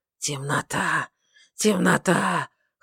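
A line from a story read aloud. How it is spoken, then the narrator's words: Hoarse muttering. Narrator (Russian): хрипло забормотала она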